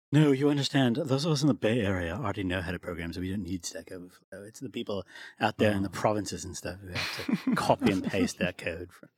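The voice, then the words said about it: Mock snooty San Francisco accent. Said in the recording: “that does sound like a San Francisco accent. ... That's a great San Francisco accent. ... It's flawless. ... It's like the perfect sound. ... Yeah, nailed it.”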